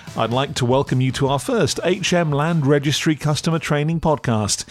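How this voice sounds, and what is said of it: Northeast English accent. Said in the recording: “the lovely northeast accent”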